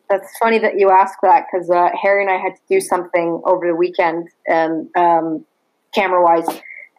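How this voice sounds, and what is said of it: Canadian accent. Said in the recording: “One of the things about Canadians that I like when they say the word about ... I've been listening to you the whole time saying about ... a Canadian accent, it stands out”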